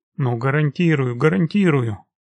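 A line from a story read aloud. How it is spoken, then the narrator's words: Quick agreement. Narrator (Russian): быстро согласился Масленников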